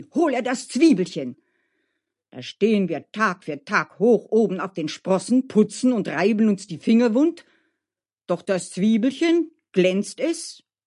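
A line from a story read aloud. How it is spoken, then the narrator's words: Shouted. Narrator (German): schrie Dmitri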